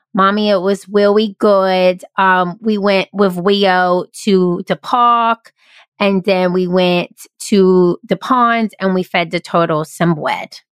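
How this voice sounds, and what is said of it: Imitates a young child's voice. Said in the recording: “I'm going to do my Jackson voice. It's just too good.”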